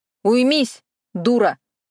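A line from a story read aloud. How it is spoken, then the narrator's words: Barked. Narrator (Russian): рявкнула я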